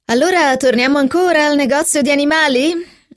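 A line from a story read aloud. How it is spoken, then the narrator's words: Laughing. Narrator (Italian): rise Philip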